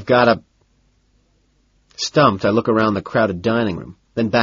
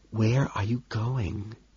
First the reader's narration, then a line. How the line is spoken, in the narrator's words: he whispers, bewildered